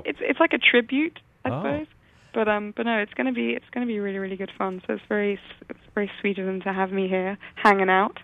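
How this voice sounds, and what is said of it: English accent. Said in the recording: “I love your accent. ... I just love English accents.”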